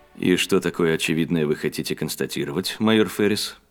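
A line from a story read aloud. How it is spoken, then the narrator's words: Bored question. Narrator (Russian): спросил Ксейден скучающим тоном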